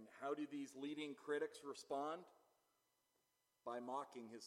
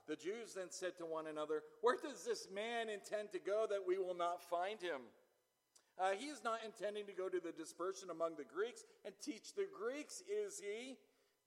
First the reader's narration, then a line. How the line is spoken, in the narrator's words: They're laughing at him, scoffing, scoffers